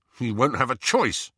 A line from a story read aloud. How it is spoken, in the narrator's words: said Ron fiercely